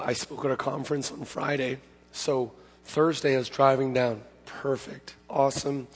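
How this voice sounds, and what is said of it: Hoarse, strained voice. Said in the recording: “lost my voice ... my voice doesn't sound too good”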